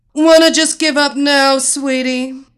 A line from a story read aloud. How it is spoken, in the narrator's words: the giantess shouted so everyone in the arena could hear